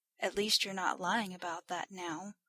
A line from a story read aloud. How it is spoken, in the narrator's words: Romano muttered to himself